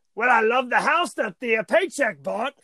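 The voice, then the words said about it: Poor attempt at British accent impression. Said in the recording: “You're no longer even doing a British accent. I don't even know what that was.”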